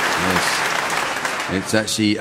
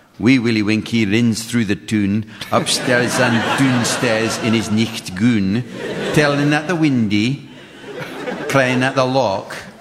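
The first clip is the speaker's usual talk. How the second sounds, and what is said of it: Put-on Scottish accent. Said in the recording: “Trying to do an accent that sounds like he's a jock.”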